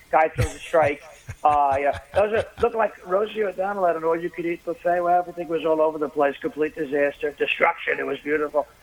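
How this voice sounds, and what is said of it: Donald Trump impression. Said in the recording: “you do a really good Trump impersonation ... I could sound like Donald Trump”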